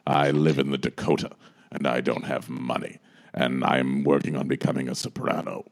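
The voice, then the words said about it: Imitates another person's voice. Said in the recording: “Sounds an awful lot like Liza impersonation.”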